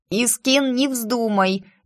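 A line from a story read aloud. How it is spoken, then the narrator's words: Nasal, nose pinched. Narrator (Russian): я зажала нос двумя пальцами, поэтому изрядно гнусавила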